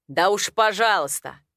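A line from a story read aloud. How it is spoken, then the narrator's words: Rude. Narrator (Russian): Это было грубо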